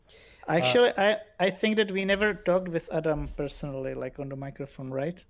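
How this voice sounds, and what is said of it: Non-native English accent. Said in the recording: “now you can hear my broken English ... I'm sorry for my accent. I really hate to hear my English accent ... my accent is horrible”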